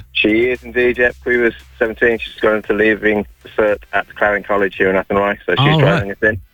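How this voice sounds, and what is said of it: Non-Irish accent. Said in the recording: “I'm just detecting from your accent there that maybe you didn't do Irish in school.”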